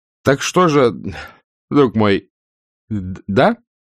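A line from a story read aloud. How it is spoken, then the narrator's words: Agitated stammering question. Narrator (Russian): Чуть заикаясь, это было у него в минуту сильнейшего волнения, Суходольский спросил, глотая открытые гласные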